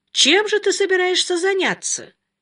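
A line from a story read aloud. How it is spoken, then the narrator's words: Father, cheerful. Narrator (Russian): весело спросил отец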